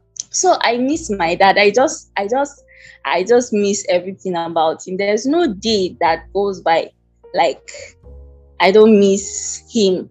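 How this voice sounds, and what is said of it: Emotional, near-tearful voice. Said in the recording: “I don't want to start crying anyway. Sorry, I don't. I'm still getting emotional,”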